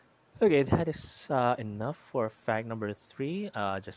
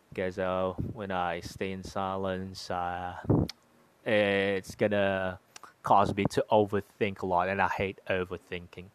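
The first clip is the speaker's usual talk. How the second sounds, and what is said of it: Put-on British accent. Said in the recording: “enough of my British accent. It's a bit taxing. It's a bit difficult to maintain a British accent for long periods of time. It's a bit tongue twisting”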